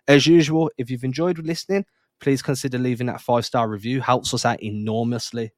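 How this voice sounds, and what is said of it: English accent. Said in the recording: “there's an English guy, in, in, he's got a weird accent”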